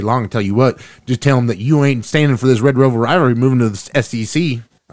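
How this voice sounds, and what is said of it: Exaggerated Texas accent. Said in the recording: “I don't know why I'm talking my Texas accent now”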